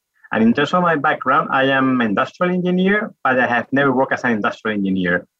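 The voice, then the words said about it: Spanish accent in English. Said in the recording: “As perhaps you may get from the accent, I am from Spain, from Madrid.”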